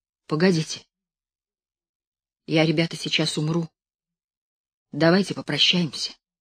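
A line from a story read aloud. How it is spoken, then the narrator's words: Sudden quiet words. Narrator (Russian): Левка вдруг тихо произнес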